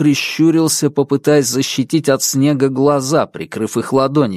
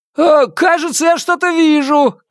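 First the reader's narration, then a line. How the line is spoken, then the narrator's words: Shouted. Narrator (Russian): крикнул Постольский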